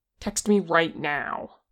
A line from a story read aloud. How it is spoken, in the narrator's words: Kim snapped